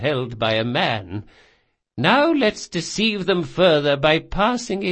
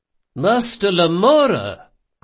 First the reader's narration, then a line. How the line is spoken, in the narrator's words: cried Ibelius